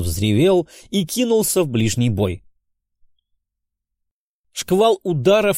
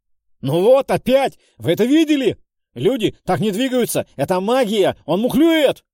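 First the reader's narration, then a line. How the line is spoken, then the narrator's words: Frantic yelling. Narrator (Russian): Вопил как ненормальный Джиггерс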